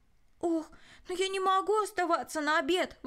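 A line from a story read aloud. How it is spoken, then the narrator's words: Exclaiming. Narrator (Russian): воскликнул Рой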